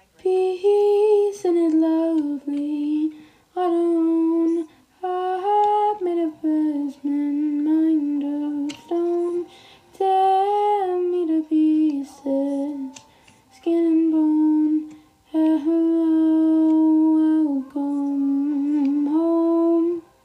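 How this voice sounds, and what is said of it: Strained, fading singing voice. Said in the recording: “I'm losing my voice, so that's why my singing is kind of eek”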